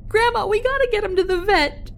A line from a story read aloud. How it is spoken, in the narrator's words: I screamed, desperate